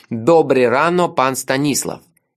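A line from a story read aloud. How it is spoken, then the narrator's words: Very loud. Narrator (Russian): очень громко сказал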